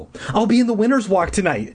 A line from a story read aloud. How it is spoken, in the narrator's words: Deirdre exclaimed